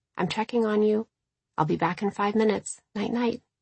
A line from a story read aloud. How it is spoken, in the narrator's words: very softly say, just loud enough for her to hear